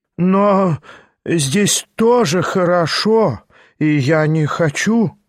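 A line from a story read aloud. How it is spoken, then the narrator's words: Toothless mumble. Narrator (Russian): прошамкал было Степан Трофимыч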